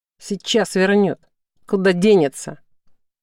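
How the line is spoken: Menacing. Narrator (Russian): Правый говорил грозно

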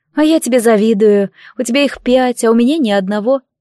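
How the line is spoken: Sad sigh. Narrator (Russian): печально вздохнула подруга

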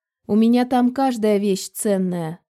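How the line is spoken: Dry reply. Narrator (Russian): сухо отозвалась она

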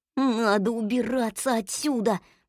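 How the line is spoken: Mutter. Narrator (Russian): пробормотал Ум

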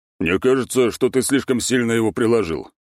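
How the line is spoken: Deep bass voice. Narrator (Russian): пробасил второй незнакомый голос

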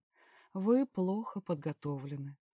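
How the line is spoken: Regretful sigh. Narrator (Russian): с сожалением вздохнул жрец

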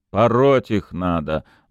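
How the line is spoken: Gruff mutter. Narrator (Russian): буркнул Буторин

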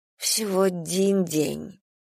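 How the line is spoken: Indistinct mumble. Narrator (Russian): невнятно пробормотала Алекс

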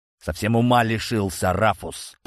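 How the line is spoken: Angry guard's growl. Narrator (Russian): прорычал злобный стражник

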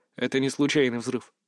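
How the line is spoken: Mutter. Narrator (Russian): пробормотал я

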